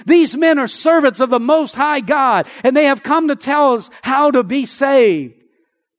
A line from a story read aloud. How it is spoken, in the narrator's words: She followed Paul and the rest of us shouting